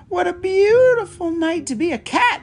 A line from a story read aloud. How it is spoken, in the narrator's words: she cried